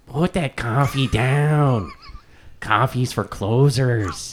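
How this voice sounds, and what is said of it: Imitates another person's voice. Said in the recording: “terrible impression ... That's actually not bad.”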